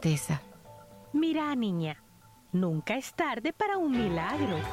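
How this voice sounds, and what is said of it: Usual voice. Nothing is said of it.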